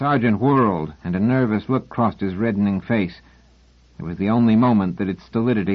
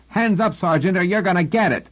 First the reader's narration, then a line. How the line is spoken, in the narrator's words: shouting